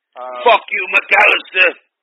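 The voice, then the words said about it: Attempted Mel Gibson voice. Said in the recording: “Can you do a Mel Gibson voice? ... I don't even know what accent this is, mate.”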